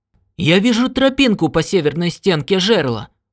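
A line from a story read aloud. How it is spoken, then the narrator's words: Exclaiming. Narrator (Russian): воскликнул Уайти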